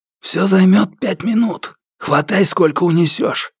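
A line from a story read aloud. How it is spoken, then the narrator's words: Hissed. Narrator (Russian): прошипел Лу Цзиньфу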